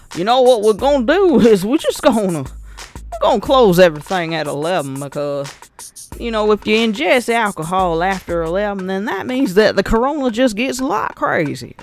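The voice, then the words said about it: Imitates another person's accent. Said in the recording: “let me get his accent together.”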